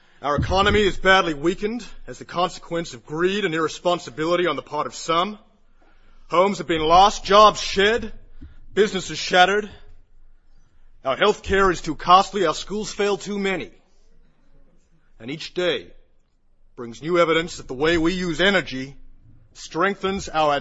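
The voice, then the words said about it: Put-on American accent. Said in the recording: “I'm going into American accent.”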